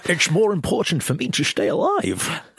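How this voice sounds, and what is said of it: Put-on Irish accent. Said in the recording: “Irish accent there.”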